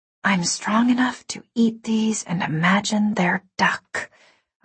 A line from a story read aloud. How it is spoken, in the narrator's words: I whispered